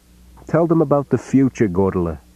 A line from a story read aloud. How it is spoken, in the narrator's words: She said merrily